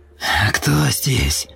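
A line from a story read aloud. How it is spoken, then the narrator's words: Hissed through clenched teeth. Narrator (Russian): прошипел Супер сквозь сжатые зубы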